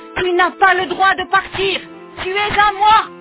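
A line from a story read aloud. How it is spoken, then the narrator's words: Wicked woman howling. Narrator (French): hurler la méchante femme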